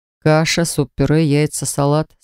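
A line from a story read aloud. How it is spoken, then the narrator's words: Plain. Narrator (Russian): спросил он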